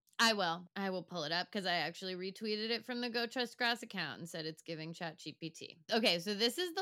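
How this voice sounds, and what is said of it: Usual voice. Nothing is said of it.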